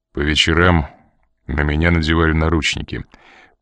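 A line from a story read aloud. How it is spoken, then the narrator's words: Gloomy explanation. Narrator (Russian): пояснил он мрачным голосом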